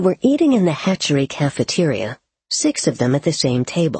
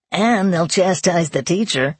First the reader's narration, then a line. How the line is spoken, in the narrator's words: he added, with a malicious chuckle